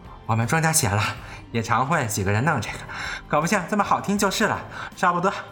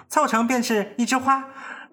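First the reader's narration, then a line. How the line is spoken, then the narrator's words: Laughing. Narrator (Chinese): 元阳笑道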